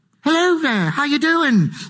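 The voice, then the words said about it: Put-on British accent. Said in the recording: “you've got a British accent.”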